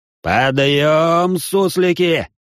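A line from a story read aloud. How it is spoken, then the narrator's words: Yelling at full strength. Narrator (Russian): заорал я, что было сил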